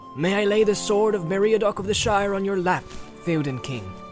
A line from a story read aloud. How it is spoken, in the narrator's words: he cried